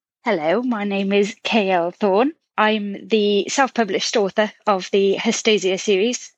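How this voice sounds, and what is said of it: British accent. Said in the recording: “I'm a British-born writer, as you can probably tell from the accent”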